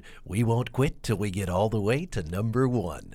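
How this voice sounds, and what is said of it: Imitates another person's voice. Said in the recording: “my best Casey Kasem impression”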